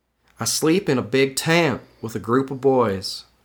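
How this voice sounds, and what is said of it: Put-on accent while reading. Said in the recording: “I'm not playing a character, but I'm doing this accent anyway”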